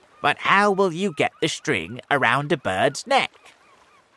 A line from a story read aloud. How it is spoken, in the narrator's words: asked the earthworm